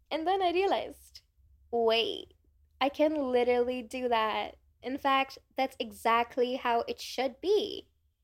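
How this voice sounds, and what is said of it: Cringy put-on American accent. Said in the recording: “my cringy American accent”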